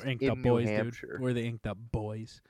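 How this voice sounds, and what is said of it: Imitates another person's voice. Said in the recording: “That was my Bobcat. ... That was my Bobcat Goldthwait impression.”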